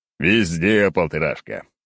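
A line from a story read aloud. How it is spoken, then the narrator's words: Chuckling. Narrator (Russian): хохотнул я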